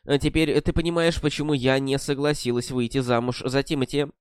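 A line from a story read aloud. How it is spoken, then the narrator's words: Calm, composed. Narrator (Russian): Она быстро пришла в себя и спокойно сказала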